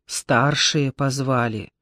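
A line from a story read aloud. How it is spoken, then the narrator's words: Quiet, meaningful. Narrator (Russian): тихо и значительно сообщила Маша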